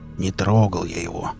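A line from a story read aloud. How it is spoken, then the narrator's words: Uneasy grumble. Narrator (Russian): буркнул Велес, почему-то вдруг ощутив себя крайне неуютно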